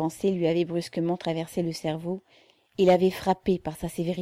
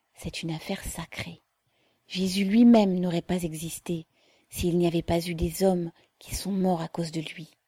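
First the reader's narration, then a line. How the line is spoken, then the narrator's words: Mother murmuring. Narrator (French): murmura la mère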